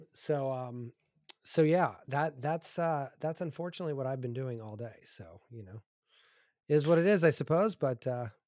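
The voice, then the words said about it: Slightly scratchy voice. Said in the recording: “My voice is a little scratchy too. If you can't tell”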